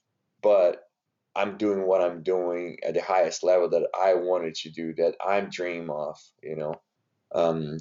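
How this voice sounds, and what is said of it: Brazilian Portuguese accent in English. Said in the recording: “I am from Brazil... I still have my accent. I still don't speak perfect English”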